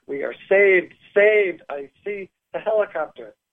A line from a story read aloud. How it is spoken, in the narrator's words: I screamed … as I exclaimed to Mark